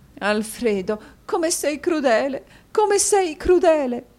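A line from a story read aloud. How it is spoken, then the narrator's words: Sobbing. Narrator (Italian): disse Madama Mantalini singhiozzando a quel terribile quadro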